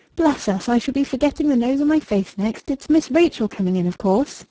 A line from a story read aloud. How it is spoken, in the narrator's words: she gave a short laugh, and said in her ordinary tone